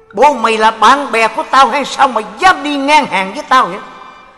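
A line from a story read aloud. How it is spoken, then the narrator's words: Angry glaring shout. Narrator (Vietnamese): ông liền trợn mắt quát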